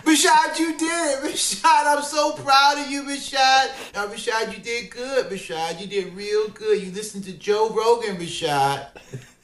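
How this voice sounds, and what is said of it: Impression of a fighter's mother. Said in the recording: “great impression of Rashad's mom”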